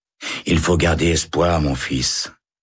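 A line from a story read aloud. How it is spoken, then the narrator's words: Sighing. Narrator (French): soupire l'aumônier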